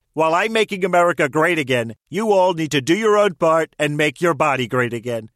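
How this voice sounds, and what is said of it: Imitates a president's voice. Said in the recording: “Celebrity voice impersonation ... It's your favorite president”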